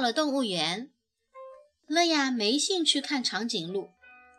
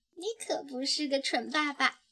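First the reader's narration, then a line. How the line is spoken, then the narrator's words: Whispering. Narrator (Chinese): 他……附在他耳边轻声低语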